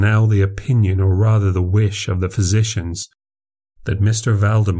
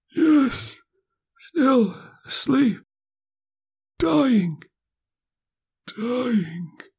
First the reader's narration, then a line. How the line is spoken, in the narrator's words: he said very faintly, almost inaudibly